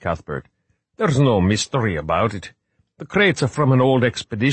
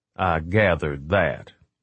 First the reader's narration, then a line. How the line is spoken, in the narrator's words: Pendergast said dryly